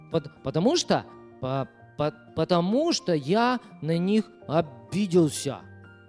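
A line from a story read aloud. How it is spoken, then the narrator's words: Plain. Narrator (Russian): Ответил песик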